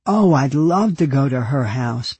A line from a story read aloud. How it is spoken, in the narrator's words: Peggy said